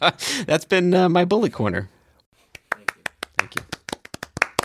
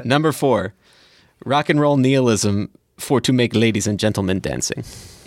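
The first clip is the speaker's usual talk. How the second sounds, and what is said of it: Bad put-on German accent. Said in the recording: “little Kraftwerk, and that's the worst German accent”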